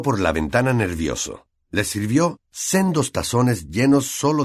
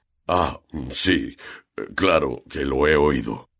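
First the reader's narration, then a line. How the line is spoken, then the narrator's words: Broken, halting voice. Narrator (Spanish): dijo Hagrid con la voz entrecortada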